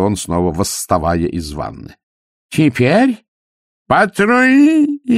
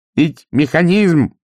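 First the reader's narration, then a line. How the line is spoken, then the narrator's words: Shout over the silence. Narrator (Russian): прокричал проницай, перекрывая звукоразрушительную тишину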